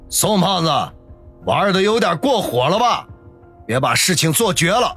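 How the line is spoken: Loud. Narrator (Chinese): 陈六高声的说道

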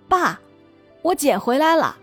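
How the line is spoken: Child calling out. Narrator (Chinese): 那小孩冲屋里喊

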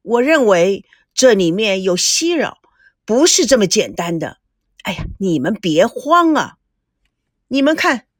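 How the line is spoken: Sighing. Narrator (Chinese): 田心雨叹着气

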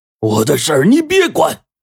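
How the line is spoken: Roaring. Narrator (Chinese): 陈润根朝着阿生就吼道

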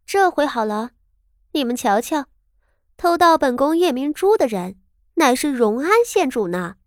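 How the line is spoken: Smug laughter. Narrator (Chinese): 面上得意非常，笑道

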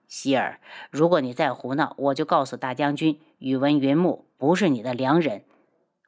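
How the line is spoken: Cold voice. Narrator (Chinese): 轩辕志声音一冷

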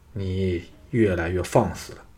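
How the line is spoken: Deep stern shout. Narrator (Chinese): 藤毅沉声喝道

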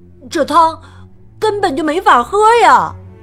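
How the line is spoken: Exclaiming. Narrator (Chinese): 马丁叫道

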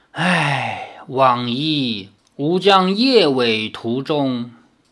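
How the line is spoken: Sighing voice from darkness. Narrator (Chinese): 黑暗中传出了一声叹气，说

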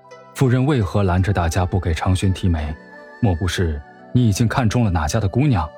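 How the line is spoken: Soft question. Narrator (Chinese): 沈炼 轻声问道

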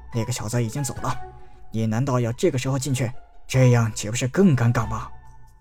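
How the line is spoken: Low-voiced old man. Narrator (Chinese): 紫衣老人低声道

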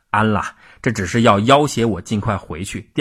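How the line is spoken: Hearty laughing. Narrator (Chinese): 吴三桂听了，哈哈一笑，说

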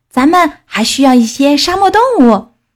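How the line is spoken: Exclaiming. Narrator (Chinese): 菲比叫起来

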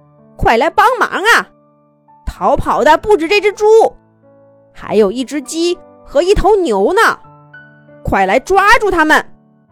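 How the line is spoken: Pained dogs shouting. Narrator (Chinese): 几只狗吃痛，一边喊着

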